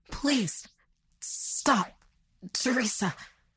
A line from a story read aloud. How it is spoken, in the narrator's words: he sputtered out in pain